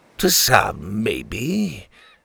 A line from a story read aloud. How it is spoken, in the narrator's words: the captain sneered